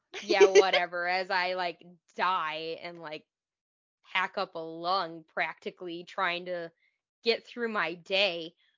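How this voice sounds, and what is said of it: Voice sounds weird, congested. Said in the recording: “I apologize for my voice. I'm getting over these stupid allergies”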